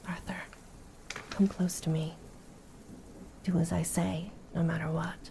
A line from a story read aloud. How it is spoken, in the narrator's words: Kratos replied quietly